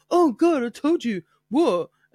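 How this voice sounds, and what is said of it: Imitates another person's voice. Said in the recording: “such a good impression ... That's what I sound like.”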